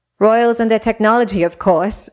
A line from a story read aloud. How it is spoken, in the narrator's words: Zora laughed